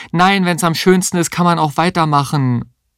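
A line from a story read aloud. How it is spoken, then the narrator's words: Calling after someone. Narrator (German): rief ihr hinterher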